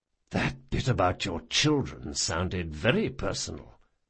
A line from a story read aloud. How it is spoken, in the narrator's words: whispered Jean